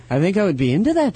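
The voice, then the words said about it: Put-on Irish accent. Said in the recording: “I don't know why I sound Irish.”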